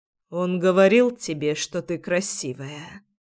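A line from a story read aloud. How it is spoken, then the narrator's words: Quiet and husky. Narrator (Russian): произносит тихо и с хрипотцой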